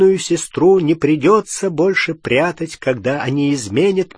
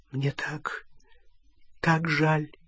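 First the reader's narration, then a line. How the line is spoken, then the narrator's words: Whispered. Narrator (Russian): прошептала Гермиона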